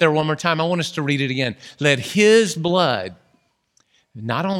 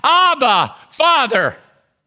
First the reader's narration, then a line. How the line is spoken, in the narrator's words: Jesus cried out